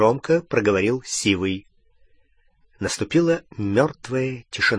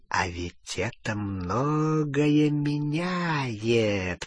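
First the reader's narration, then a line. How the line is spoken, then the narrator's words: Whisper. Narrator (Russian): прошептал Фенрир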